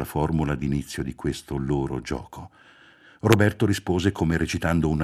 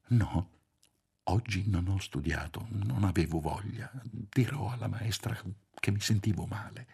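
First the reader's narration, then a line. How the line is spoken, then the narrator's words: Whispered reply. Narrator (Italian): Sussurrando anche lui rispose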